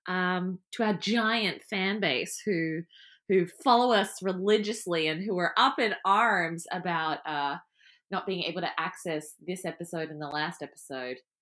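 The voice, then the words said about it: Sarcastic delivery. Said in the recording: “I'm also being sarcastic”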